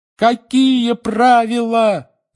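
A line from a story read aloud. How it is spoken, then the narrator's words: Four voices yelling together. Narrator (Russian): завопили Гарри, Рон, Фред и Джордж одновременно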